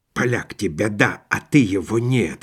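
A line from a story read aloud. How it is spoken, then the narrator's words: Muttering Cossack. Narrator (Russian): бормотал казак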